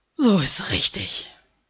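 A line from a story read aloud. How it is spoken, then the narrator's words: Grunting. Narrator (German): grunzt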